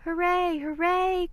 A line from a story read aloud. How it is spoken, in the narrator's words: cried the little clown and the dolls and the toys